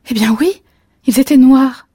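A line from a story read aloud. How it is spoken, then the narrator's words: Exclaimed. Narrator (French): s'exclama-t-elle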